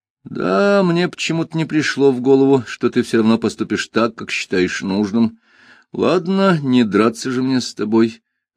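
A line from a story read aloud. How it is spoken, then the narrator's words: Sighing. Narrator (Russian): вздохнул Шурф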